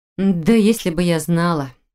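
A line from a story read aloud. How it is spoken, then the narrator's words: Irritated, through gritted teeth. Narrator (Russian): Раздраженно процедила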